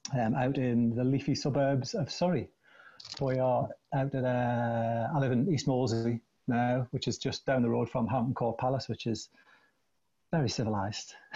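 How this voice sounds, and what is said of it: Strong regional accent. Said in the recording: “just the sound of your voice, I think, gives it away ... the accent, it's not getting any thinner ... it doesn't seem to be thinning out”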